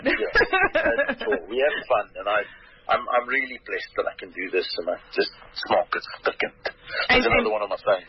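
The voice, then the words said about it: Distinctive own accent. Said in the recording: “you've just got the way to say it as an accent. I can't do the accent. I can certainly do the words, but the accent, I'm afraid, is all yours.”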